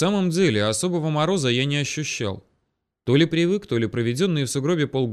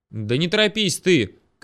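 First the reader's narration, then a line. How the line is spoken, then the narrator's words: Shouting after someone. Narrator (Russian): крикнул ему в спину я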